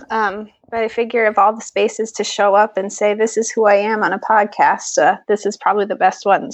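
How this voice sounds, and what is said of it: Slightly hoarse, froggy voice from cold. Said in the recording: “I've got a little bit of a cold ... a little frog shows up with me”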